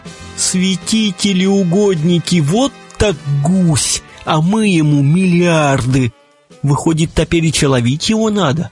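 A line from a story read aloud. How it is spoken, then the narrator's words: Collective howling. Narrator (Russian): Тут все взвыли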